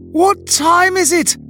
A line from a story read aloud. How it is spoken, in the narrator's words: I had bellowed